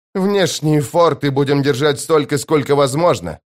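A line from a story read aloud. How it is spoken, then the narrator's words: Snapping retort. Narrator (Russian): огрызнулся Радберу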